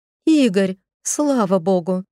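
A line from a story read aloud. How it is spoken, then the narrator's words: Exclamation. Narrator (Russian): воскликнула она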